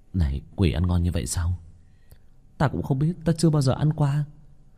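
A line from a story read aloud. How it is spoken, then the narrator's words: Muttered, swallowing saliva. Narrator (Vietnamese): Có nhân sĩ đuổi quỷ nhuốt nước bọt, lầm bầm với đồng bọn ở bên cạnh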